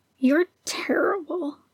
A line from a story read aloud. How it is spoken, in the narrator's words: Jango murmured